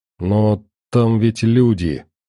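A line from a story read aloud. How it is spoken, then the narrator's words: Dejected voice. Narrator (Russian): упавшим голосом напомнила Марина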